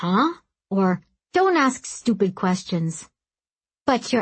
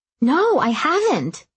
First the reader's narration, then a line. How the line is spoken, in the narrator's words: she cried